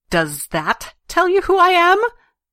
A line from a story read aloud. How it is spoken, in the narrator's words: Cade snarled